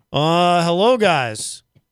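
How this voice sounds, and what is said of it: Imitates another person's voice. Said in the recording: “impression of easy G ... Sound pretty good.”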